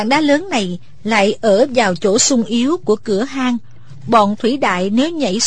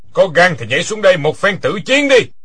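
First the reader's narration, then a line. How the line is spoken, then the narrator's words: Loud laughing taunt. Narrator (Vietnamese): Quyết Đao Tăng ha ha cười lớn nói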